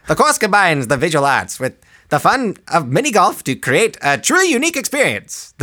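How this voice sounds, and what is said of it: Old-timey voice. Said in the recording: “should I read it in my old timey voice?”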